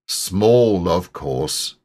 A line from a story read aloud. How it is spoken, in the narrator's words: said Eeyore